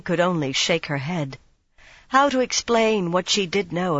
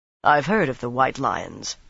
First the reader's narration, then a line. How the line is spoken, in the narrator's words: Rand said coldly